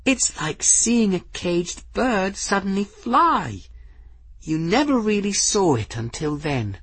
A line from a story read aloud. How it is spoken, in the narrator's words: Folly breathed